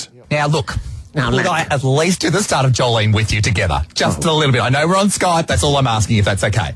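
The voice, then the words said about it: Australian accent. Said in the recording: “You have such an accent, you know. ... You're very down under.”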